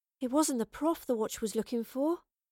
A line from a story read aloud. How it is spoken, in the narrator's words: Astrid breathed